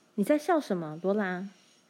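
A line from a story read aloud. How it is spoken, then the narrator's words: Sharp, stern question. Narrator (Chinese): 怀德小姐厉声问道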